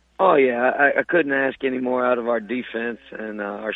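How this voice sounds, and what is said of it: Hoarse voice from a cold. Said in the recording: “Sounds like you're nursing a cold or something, man. You ain't been screaming too much ... got a little bit of a cold ... that's my Coach O impression”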